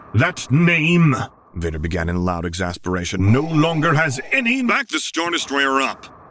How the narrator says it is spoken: Solo snapped

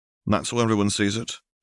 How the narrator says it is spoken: Harry returned evenly

